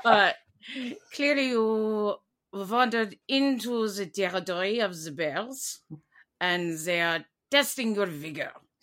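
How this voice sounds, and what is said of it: Put-on German accent. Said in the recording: “I've lost my French accent. I'm German now.”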